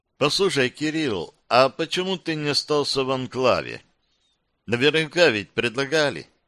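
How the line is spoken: Plain question. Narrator (Russian): спросила Тина

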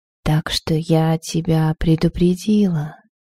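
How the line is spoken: Very quiet whisper. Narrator (Russian): прошептала Дагейда так тихо, как будто напрямую передавая в его голову свою мысль

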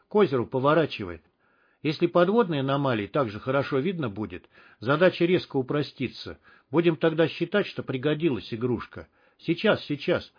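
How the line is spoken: Muttering. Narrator (Russian): бормотал Стерх

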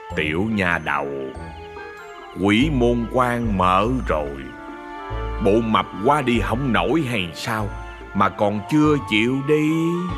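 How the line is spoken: Soft, gentle young man. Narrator (Vietnamese): Người thanh niên giọng nhỏ nhẹ nói

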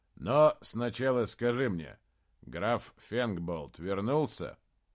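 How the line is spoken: Plain. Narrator (Russian): Гутвульф ответил

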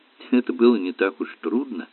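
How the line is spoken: Soft, gentle remark. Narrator (Russian): мягко заметила маленькая женщина

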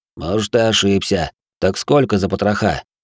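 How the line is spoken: Odd strained chuckle. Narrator (Russian): Юрлим странно, словно с трудом, хохотнул

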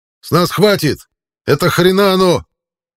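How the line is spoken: Yelled. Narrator (Russian): заорал Билл

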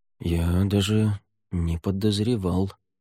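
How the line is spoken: Mumble. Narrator (Russian): пробормотал Рейордан

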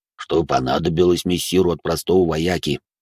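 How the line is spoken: Booming bass. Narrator (Russian): гулким басом проговорил Минотавр

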